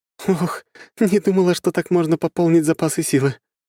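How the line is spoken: Breathy exhale. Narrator (Russian): выдохнула

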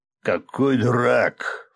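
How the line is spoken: Scornful snort. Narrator (Russian): фыркнул Чангер

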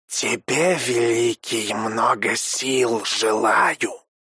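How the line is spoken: Clicking, hissing creature. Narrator (Russian): прощелкал, прошипел хаш

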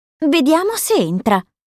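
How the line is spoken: Exclamation. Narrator (Italian): esclama Belle

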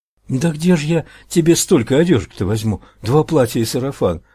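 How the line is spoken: Pleading woman. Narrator (Russian): взмолилась женщина

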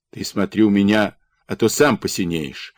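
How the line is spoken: Angry snap. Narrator (Russian): Сердито огрызнулся Дмитро

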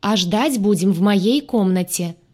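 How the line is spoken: Loud. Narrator (Russian): сказала я громко

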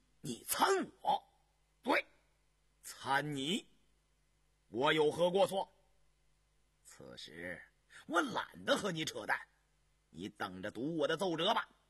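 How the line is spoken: Furious. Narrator (Chinese): 杨明石勃然大怒

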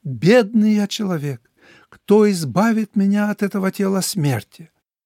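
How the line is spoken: Desperate exclamation. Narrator (Russian): Апостол Павел в отчаянии воскликнул

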